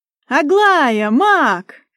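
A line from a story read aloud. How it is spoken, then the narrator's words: Loud yell close by. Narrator (Russian): кто-то завопил над самым ухом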